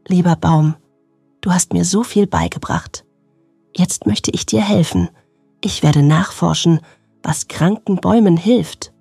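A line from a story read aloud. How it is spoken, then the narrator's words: Whisper. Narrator (German): flüsterte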